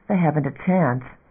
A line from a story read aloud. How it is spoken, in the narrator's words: Graf muttered too audibly